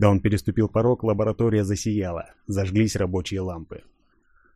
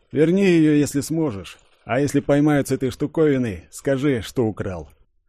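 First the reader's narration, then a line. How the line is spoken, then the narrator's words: Sympathetic sigh. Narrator (Russian): Сочувственно вздохнул, сказал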